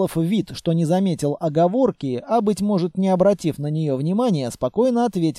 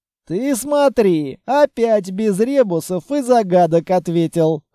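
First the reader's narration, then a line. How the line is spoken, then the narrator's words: Chuckle. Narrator (Russian): хохотнул Длинный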